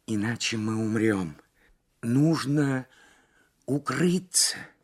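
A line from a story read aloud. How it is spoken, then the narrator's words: Strained whisper. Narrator (Russian): с трудом прошептала Лабисквей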